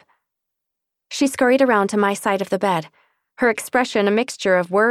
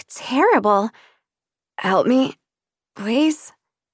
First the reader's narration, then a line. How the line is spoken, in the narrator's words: I croaked, my throat dry